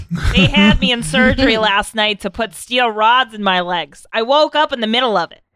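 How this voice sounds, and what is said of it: Long Island mom accent. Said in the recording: “What accent did ... have? ... Long Island Zumba Mom.”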